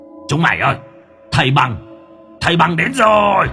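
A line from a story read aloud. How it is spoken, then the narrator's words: Sudden shout. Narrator (Vietnamese): hét lên một tiếng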